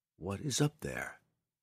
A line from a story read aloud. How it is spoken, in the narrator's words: the drow whispered to himself